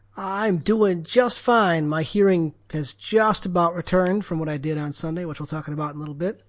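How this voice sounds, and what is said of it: Tired, worn-out throaty voice. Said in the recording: “You sound a little tired. You sound a little worn out in the throat.”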